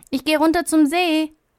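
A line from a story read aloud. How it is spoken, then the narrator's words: Called out. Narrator (German): ruft Marie ihrer Mutter zu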